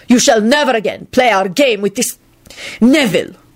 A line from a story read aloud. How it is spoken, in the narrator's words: Radu spat out vituperatively